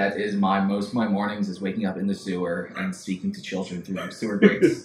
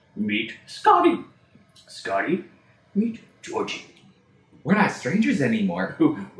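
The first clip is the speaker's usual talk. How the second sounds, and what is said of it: Creepy clown character voice. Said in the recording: “I want to break out my my Pennywise impression.”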